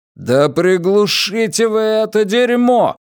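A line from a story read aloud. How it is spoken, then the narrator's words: Loud shouting. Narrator (Russian): кричу, и кричу громко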